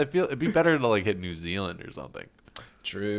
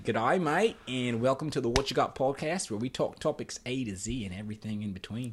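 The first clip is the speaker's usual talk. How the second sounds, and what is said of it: Put-on Australian accent. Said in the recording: “I really want to work on my, my Australian accent ... Australian accent, mate ... Oh, not too bad, not too bad.”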